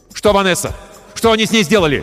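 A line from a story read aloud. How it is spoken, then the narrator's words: Shouted. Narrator (Russian): крикнул я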